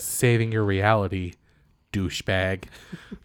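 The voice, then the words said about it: Deliberately bad put-on American accent. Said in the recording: “I'll do this really terrible American accent... I feel like he's getting better at it.”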